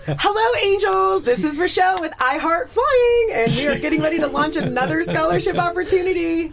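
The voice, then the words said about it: High-energy imitation of another person. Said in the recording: “Do your best Rochelle impersonation ... She's very high energy.”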